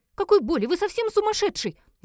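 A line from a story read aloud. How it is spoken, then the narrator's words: Terrified scream. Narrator (Russian): закричала, видя, как он занес надо мной кинжал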